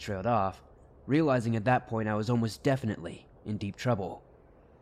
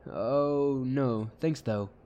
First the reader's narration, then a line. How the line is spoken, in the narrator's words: chuckled nervously and said